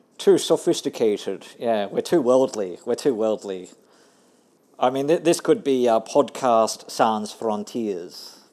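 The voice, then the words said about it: Australian accent. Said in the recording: “Some people have trouble with my Aussie accent.”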